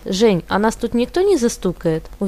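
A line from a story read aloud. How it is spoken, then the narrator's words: Confident, familiar. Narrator (Russian): уверенным голосом произнесла она, словно знала своего партнера много лет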